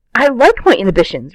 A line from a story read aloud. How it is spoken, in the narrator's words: Rodney says frantically